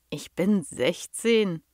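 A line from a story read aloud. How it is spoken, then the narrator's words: Plain. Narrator (German): antwortete Tom daraufhin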